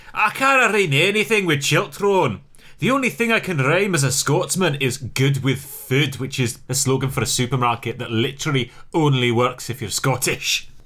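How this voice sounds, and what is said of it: Put-on Scottish accent. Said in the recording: “you're quite a good Scottish accent there ... That's not a bad Scottish accent at all ... it's a terrible Scottish accent”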